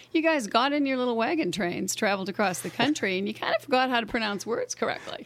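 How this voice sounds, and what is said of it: Boston accent. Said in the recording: “I am from Boston. ... everyone thinks I have an accent out here”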